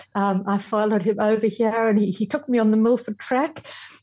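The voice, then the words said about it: Strong foreign accent. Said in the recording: “my accent sounds as though I arrived the other day.”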